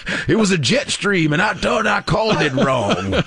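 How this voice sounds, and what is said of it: Put-on country accent. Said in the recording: “I'm giving Al Roker a country accent.”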